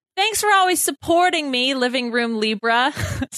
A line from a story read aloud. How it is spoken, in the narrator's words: said Ovi